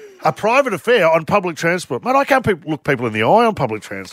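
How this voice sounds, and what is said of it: Usual voice. Nothing is said of it.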